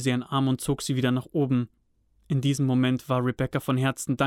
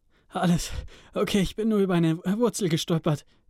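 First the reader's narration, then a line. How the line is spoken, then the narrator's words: Panting. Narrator (German): keuchte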